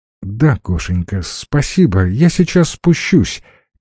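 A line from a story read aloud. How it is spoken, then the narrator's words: Quiet. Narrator (Russian): тихо сказала Лена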